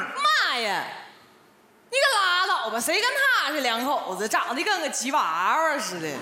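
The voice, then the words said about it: Shanghai speech with Northeastern accent. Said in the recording (Chinese): “你这口音啥时候做的手术呢？... 那你这个上海话讲的挺鞍山的”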